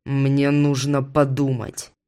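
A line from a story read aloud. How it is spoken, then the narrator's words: Growl. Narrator (Russian): прорычал он мне в лицо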